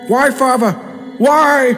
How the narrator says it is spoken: shouted Lawrence, as he was dragged through the waters towards his parent

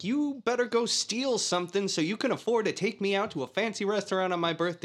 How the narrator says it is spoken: Jewel is yelling at Henry

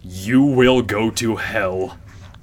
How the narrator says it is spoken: like in a really menacing voice

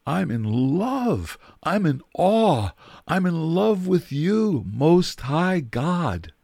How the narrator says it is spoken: he would have cried out

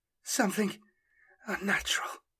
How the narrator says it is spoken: whispered the female psyker

